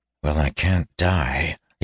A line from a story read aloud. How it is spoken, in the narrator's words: he muttered to himself